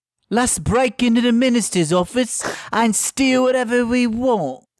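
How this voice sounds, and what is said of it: Line repeated in a put-on accent. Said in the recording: “Different accent.”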